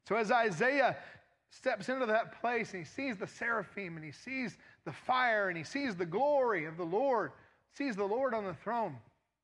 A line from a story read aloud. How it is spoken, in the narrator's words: he cries out and he says